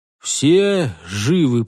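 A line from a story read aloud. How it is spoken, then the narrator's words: Hoarse wheeze. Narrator (Russian): прохрипел он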